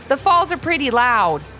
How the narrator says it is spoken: shouted Ivy's mom

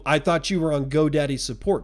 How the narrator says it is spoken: Scott asked

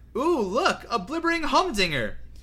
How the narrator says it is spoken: she had cried

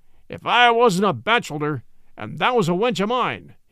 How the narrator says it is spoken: he cried

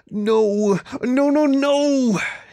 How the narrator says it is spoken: groaned through gritted teeth

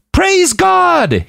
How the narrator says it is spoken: he screamed out

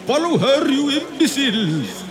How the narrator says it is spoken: shouted an exasperated Colonel Rhys

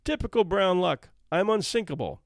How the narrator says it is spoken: Margaret boldly exclaimed

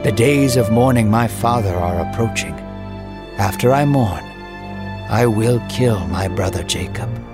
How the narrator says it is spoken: Esau sighed a deep breath and said

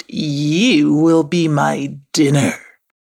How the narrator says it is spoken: growled the Fossa

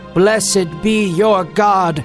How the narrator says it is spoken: he shouted

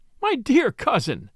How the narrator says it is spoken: said Lady Anne, laughing

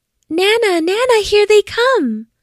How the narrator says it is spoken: she cried

